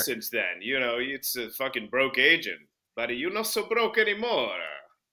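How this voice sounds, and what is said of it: Put-on New York Jewish accent. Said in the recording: “Is this still your Jewish character? ... That was the upper borough accent Jew coming out of you.”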